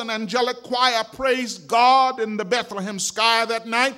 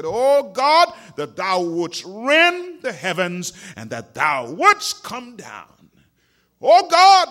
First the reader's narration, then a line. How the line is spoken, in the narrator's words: said